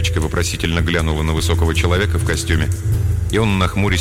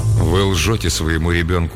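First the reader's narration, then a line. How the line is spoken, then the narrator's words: Dry, curt. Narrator (Russian): сухо сказал мужчина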